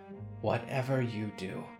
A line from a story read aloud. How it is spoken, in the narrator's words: Harrow said quietly